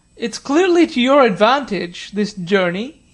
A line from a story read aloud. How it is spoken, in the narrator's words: he said with a loud laugh, for the air was like strong wine